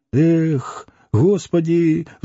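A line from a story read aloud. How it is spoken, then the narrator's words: Sighing. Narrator (Russian): вздохнул Митрофанов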